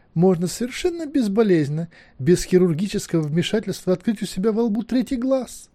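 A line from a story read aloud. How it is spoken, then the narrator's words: Delighted exclamation. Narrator (Russian): с восторгом воскликнула кузина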